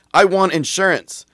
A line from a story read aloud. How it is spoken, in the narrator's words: the Middle Eastern dude yelled